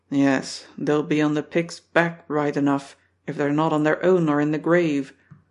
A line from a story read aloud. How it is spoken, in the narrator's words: At last Don, who often enough has himself taken a hand in cheering others up, will turn from the fireplace and grunt